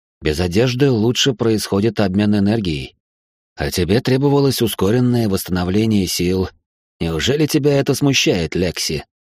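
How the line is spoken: Velvety tone. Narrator (Russian): Бархатным тоном произнес Айтар

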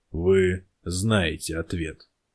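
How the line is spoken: Quiet. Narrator (Russian): также негромко произнес глава

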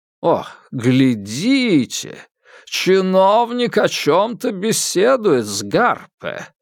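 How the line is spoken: Interpreter's drawl. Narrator (Russian): протянул переводчик

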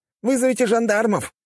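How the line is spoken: Shout from crowd. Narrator (Russian): кричал кто-то из толпы

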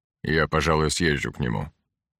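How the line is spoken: Plain. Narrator (Russian): сказал Геринг

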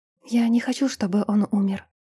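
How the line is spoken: Barely audible confession. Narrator (Russian): призналась чуть слышно

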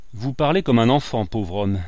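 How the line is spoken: Lecturing tone. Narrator (French): dit Walter Meyer d'un ton de professeur

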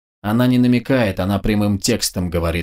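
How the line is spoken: Grumbled. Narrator (Russian): буркнул Вячеслав

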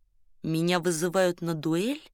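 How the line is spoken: Romanian, hoarse strained French. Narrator (Russian): Румын сипло, словно через силу цедил французские слова

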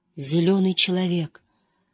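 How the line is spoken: Whisper. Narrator (Russian): прошептала Эгвейн, и на лице со шрамом появилась улыбка

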